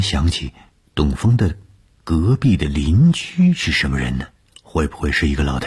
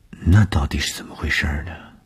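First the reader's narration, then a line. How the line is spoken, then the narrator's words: Shy mumble. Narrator (Chinese): 东风的脸上飞过红晕，喃喃地说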